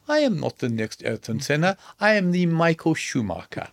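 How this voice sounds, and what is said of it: Michael Schumacher impression, strong German accent. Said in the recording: “Michael said in his very German accent”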